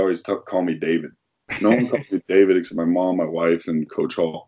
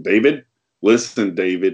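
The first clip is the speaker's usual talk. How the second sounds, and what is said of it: Imitated East Coast accent. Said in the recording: “He's from the East Coast, so he's got a kind of a funky accent.”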